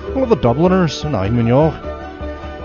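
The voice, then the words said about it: Put-on Irish accent. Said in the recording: “I guess I should be switching into my Irish accent here”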